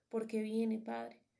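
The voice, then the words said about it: Deep, sepulchral voice. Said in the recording (Spanish): “voz de ultratumba”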